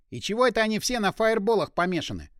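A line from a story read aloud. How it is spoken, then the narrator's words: Snorting. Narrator (Russian): хмыкнул пиромант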